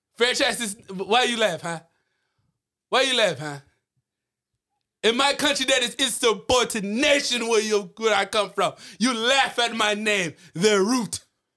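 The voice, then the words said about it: Nigerian-accented English. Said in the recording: “From Nigeria, I'm from Nigeria. As you could tell by my accent, I don't know if it's a little hard. It is.”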